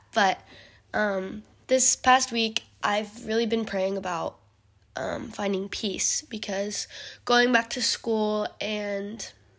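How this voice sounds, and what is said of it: Hoarse, sick-sounding voice. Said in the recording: “my voice sounds a little hoarse. I'm sick”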